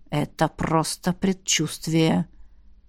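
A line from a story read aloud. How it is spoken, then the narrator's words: Through gritted teeth. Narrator (Russian): сквозь зубы процедил император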